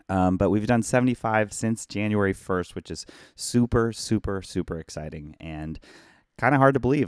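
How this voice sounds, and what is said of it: Hoarse voice. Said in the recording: “my voice is seriously messed up ... I'm hoarse.”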